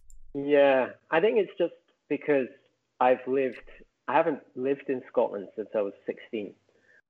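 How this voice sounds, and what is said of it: Faint Scottish accent with American twang. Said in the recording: “with your accent, I wasn't expecting Scottish. I was expecting sort of Southern English ... most people think I'm American ... You do have a bit of a twang”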